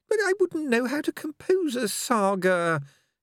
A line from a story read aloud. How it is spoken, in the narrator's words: he said feebly